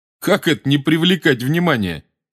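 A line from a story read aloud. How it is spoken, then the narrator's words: Laughing. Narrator (Russian): засмеялся Рон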